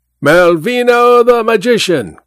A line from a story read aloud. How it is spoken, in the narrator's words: cried a flunky